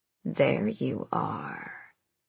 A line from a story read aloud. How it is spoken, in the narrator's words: it hissed through teeth sharper than a fish's